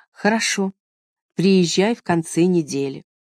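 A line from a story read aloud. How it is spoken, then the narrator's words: Forced calm, restrained. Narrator (Russian): Ей стоило большого труда сказать ему спокойным и сдержанным тоном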